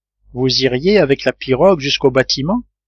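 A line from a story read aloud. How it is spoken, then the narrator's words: Plain. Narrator (French): demanda Gédéon Spilett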